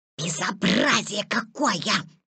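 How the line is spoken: Indignant hiss. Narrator (Russian): зашипел ежик

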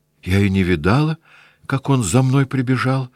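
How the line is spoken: Timid. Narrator (Russian): робко сказала она

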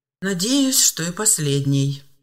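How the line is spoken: Sigh. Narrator (Russian): вздохнул Степан Терентьевич

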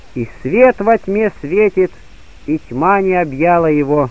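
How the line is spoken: Solemn declaration. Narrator (Russian): торжественно заявить

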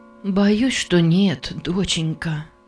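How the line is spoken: Soft. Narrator (Russian): мягко сказала госпожа Джарвис

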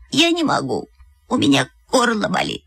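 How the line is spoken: Choked voice. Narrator (Russian): Я сказала сдавленным голосом

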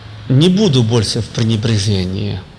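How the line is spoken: Plain. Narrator (Russian): Господь говорит

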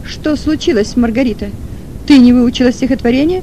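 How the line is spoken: Teacher's question. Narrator (Russian): спросила учительница

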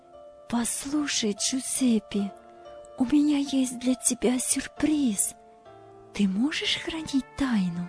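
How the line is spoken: Excited girl's whisper. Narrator (Russian): Девушка взволнованно поправила волосы и шепотом сказала

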